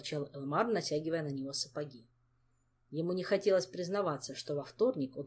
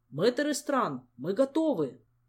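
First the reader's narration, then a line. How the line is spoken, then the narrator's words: Shouted. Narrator (Russian): крикнул Элмар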